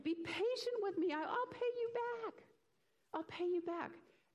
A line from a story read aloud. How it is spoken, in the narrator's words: He fell to his knees and he begged